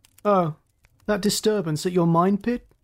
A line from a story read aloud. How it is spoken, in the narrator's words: He laughed, but only with his mouth